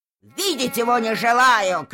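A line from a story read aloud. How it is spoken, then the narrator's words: Shouting. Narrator (Russian): кричала она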